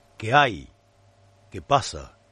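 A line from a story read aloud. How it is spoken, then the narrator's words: Hoarse murmur. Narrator (Spanish): murmuró con ronca voz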